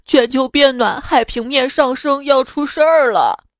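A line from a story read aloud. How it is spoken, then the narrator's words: Crying polar bear. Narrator (Chinese): 北极熊哭泣道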